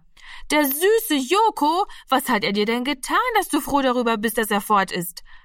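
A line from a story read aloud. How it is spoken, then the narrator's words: Calling out. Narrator (German): rief Martina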